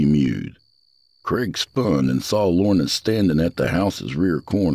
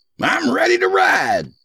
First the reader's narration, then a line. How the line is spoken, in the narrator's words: he shouted